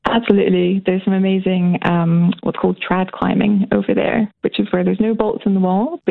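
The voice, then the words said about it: Scottish accent. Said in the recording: “Where's your accent from? ... I moved here from Scotland when I was 14”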